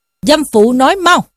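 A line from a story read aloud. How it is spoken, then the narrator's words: Fierce shout. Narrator (Vietnamese): Võ Tòng quát lên rằng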